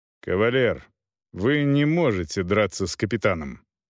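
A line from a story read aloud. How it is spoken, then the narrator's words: Calm, daring. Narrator (Russian): продолжал фон Клаузевиц спокойно, хотя и понимал свою дерзость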